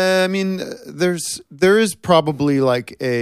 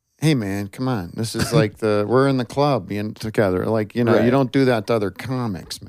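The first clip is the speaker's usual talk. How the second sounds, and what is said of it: Imitates another person's voice. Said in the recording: “doing a Bill Dennis Miller impression”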